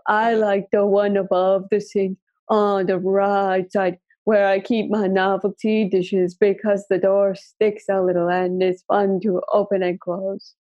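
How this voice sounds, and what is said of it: Ominous, spooky warning-like voice. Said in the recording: “Do I sound like I'm warning you about, like, not going into the haunted house?”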